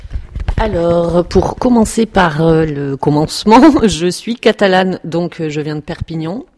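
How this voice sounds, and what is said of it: Strong southern French regional accent. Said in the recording (French): “tu as un très bel accent ... j'ai du mal à cacher mon accent”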